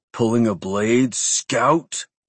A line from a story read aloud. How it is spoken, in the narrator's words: he asked, voice almost a growl